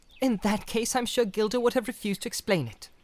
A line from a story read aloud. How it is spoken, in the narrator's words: said Frodo sharply